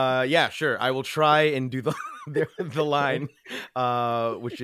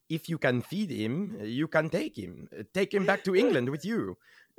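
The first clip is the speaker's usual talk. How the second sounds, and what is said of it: Good put-on French accent. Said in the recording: “A brilliant French accent ... Can you give us some French accent? ... Whoa, that was really good. ... good voices.”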